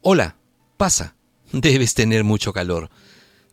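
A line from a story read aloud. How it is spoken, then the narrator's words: Exclaiming. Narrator (Spanish): Ella exclamó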